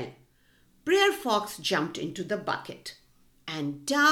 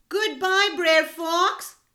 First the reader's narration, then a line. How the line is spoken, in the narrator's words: he shouted